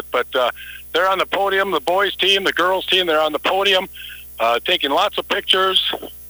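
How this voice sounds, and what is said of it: Hoarse, fading voice. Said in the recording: “I'm losing my voice really bad.”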